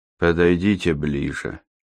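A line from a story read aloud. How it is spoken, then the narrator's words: Flat colorless voice. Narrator (Russian): произнес он настолько бесцветным голосом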